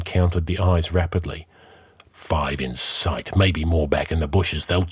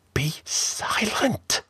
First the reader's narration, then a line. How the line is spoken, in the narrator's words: hissed Taurus